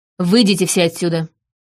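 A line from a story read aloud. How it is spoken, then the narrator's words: Sharp command. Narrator (Russian): Олдберт резко приказал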